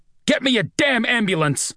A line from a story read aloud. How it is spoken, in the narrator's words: shout up at him